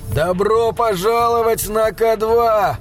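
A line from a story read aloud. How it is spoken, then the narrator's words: Shouted. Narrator (Russian): крикнул Гэри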